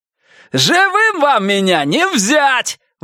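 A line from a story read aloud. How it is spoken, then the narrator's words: Ecstatic shout. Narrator (Russian): выкрикнул он, опьянев от восторга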